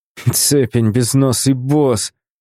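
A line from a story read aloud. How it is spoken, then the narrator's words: Groaning with strain. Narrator (Russian): пытаясь подняться, простонал Микаэль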